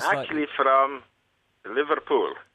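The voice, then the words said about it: German or Polish-sounding accent. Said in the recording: “we guess that you're from either Germany or Poland ... That's a very good accent.”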